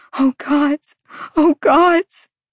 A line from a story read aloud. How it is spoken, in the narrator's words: Bryce as she sobbed